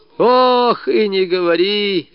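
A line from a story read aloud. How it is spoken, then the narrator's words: Old woman's groan. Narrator (Russian): застонала бабушка Лукерья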